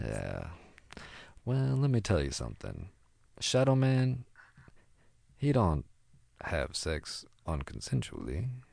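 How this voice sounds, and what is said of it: Sexy doo-wop singer voice. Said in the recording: “Are you in a doo-wop band? You have such a sexy voice.”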